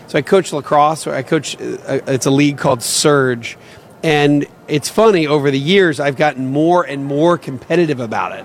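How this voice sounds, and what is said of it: Slightly raspy voice. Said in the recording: “My voice, a little raspy. ... I'm literally screaming so that kids can hear me”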